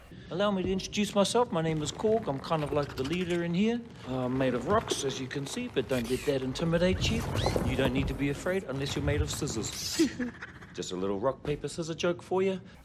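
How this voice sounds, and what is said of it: Lilting New Zealand accent. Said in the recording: “delightfully lilting Kiwi accent”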